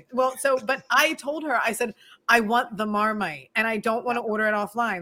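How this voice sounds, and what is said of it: Philadelphia accent. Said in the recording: “this is my Philadelphia accent”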